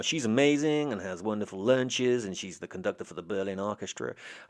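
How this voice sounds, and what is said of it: Attempted American accent. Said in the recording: “I'll try now... Did that sound like a convincing American accent?”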